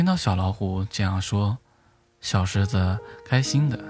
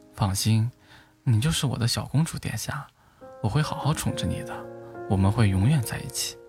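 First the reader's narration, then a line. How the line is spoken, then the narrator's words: Gentle. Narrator (Chinese): 会温柔地对小狮子说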